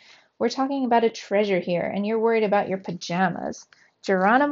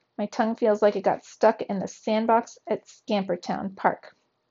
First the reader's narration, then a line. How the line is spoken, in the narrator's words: mumbled Trap